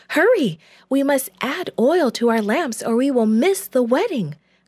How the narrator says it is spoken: cried one

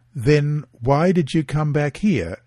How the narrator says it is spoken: asked

